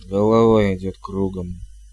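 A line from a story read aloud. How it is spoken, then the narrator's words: Dull, muffled voice. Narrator (Russian): глухо промолвила матушка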